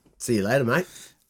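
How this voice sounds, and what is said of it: Australian-sounding accent. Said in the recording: “that sounded Australian”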